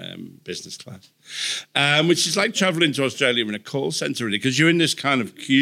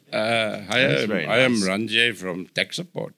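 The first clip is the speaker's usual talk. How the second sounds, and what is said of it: Put-on accent. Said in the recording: “Let's move away from that accent. ... Accents of the World”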